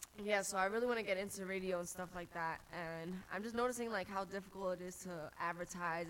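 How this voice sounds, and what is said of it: Congested voice. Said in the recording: “Sorry, I'm congested today, but usually I guess my voice is like different”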